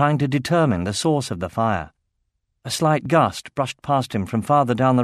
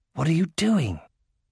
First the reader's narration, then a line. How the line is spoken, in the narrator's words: whispered Baldur